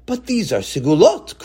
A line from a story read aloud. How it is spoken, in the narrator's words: cried Tzadok